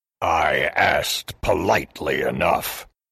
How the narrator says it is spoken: grunted the oni

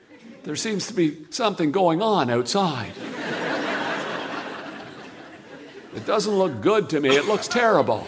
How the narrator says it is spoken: Carl was whispering

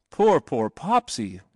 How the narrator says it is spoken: cried

